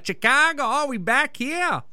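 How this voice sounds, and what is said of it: Bad Chicago-Australian mixed accent. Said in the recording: “that was bad, and I regret doing that voice ... That's like a Chicagoan Australian mix.”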